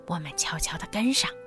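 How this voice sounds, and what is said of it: Quiet whispered voice. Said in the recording (Chinese): “小声示意”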